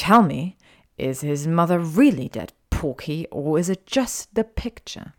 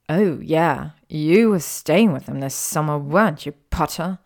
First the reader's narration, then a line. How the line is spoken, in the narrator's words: sneered Draco